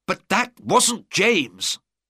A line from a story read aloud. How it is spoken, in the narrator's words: cried the Duke